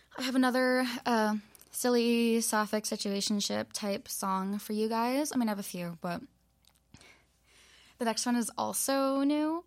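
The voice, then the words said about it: Hoarse, strained voice. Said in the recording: “my voice is a little bit shot”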